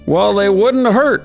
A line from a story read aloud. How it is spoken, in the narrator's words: laughed the beggar